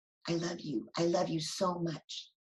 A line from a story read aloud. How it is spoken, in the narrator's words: Davis whispering to no one visible